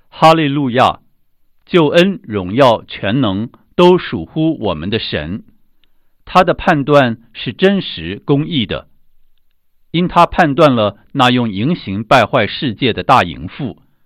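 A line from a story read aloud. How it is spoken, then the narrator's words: Loud crowd. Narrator (Chinese): 好像群众在天上大声说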